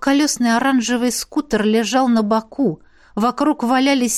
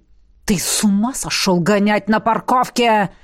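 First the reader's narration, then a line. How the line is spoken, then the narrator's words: Menacing growl. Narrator (Russian): Зарычал Роберт так, что даже меня пробрало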